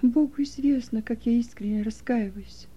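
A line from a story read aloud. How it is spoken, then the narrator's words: Sighing, tearful. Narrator (Russian): вздохнула Приска, и слезы снова покатились по ее щекам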